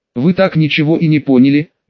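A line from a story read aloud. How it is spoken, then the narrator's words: Languid sigh. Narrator (Russian): Мария томно вздохнула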